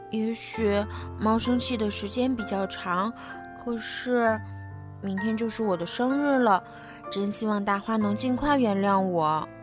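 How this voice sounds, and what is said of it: Quiet, soft murmur to oneself. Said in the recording (Chinese): “库特小声的对自己说”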